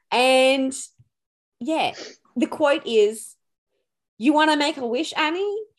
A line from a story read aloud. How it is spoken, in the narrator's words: He shouted at her